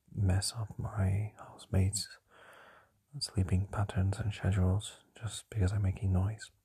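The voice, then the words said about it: Soft whisper. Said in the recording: “this is me whispering and talking quite softly”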